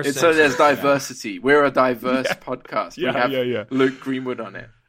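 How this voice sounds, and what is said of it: British accent. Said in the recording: “the British accent. That isn't even a British accent for British people.”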